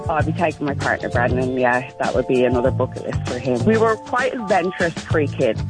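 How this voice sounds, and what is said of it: Irish accent. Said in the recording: “I'm picking up an accent there, am I? ... I'm from Ireland originally, yeah. ... I was gonna say, Dublin.”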